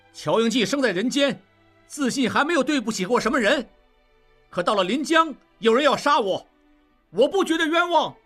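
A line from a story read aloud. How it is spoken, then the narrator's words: Loud. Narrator (Chinese): 应季大声说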